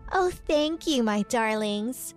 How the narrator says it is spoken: said Whitney in a sweet voice

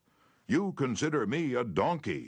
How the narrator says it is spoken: he shouted

